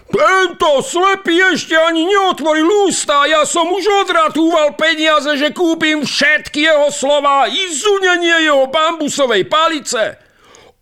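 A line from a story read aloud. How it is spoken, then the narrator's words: Shouting. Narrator (Slovak): kričí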